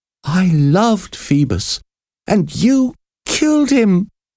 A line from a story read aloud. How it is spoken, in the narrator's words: cried with despair